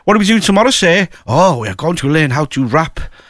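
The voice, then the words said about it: Mock Turkish accent. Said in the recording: “I'll probably get done now for Ofcom for doing that accent”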